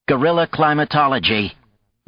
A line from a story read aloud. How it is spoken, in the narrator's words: Maya said with a snort